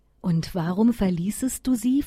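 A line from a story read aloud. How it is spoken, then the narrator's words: Plain. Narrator (German): fragte der Schneemann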